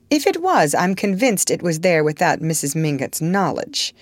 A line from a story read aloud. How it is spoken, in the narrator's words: Archer put in hastily